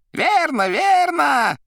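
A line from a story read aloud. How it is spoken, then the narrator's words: Shouting. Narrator (Russian): кричал Коровьев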